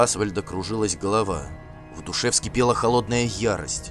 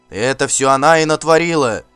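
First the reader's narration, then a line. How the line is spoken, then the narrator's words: Warriors shouting all around. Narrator (Russian): кричали вокруг него хирдманы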